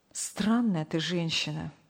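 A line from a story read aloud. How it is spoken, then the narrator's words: Sigh. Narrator (Russian): вздохнул Сергей Павлович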